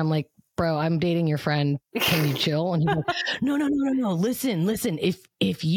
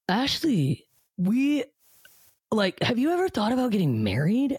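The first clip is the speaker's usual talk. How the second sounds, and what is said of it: Imitates another person's voice. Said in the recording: “I'm gonna do my best impression.”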